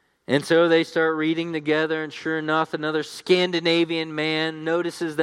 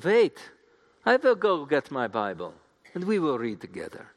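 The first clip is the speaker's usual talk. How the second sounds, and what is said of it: Put-on German accent. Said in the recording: “That's my best German accent.”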